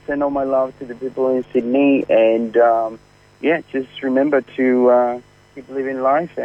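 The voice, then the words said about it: Chilean-accented English. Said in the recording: “I didn't know he was Chilean. ... I love his accent. ... It's a lovely accent. ... Lovely accent.”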